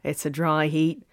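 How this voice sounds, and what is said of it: Weak put-on Australian accent. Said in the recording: “Why am I talking like that? That wasn't even a very good Australian accent.”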